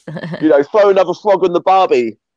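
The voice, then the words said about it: Put-on Australian accent. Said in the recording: “if Grogu had an Australian accent”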